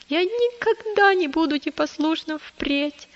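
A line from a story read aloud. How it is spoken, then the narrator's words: Sobbing child. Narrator (Russian): прорыдал маленький христианин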